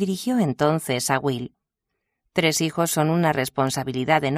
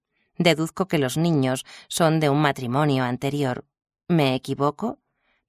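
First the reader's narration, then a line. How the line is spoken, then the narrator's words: Plain. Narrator (Spanish): preguntó a Eleanor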